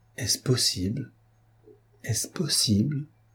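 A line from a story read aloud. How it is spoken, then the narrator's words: Disconcerted murmur. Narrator (French): murmura-t-il comme si la facilité d'un pareil dénouement l'eût déconcerté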